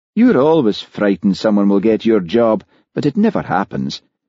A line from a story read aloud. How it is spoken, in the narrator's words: said Hamish soothingly